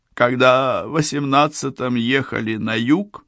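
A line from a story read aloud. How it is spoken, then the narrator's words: Hoarse. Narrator (Russian): начала она хрипло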